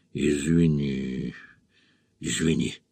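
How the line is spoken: Drowsy mumble. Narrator (Russian): бормотал он, снова проваливаясь в сон

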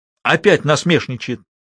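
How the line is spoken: Angry shouting. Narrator (Russian): кричала Амла-Лагик

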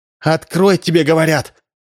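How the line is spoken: Exclaiming. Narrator (Russian): воскликнула Римма

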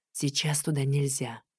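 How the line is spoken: Soft whisper. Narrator (Russian): тихонько шепнул

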